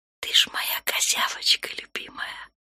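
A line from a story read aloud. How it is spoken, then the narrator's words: Whisper. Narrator (Russian): прошептала Наташа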